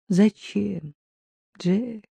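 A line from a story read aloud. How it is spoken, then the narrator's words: Weak-voiced question. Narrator (Russian): слабым голосом спросила Катя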